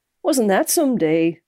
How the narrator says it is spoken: said brightly

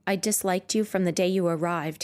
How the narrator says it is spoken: he said

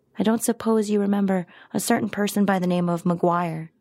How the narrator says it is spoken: he said

